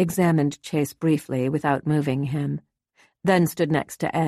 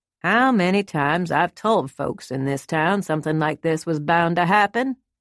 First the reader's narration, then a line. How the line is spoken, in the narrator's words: the sheriff said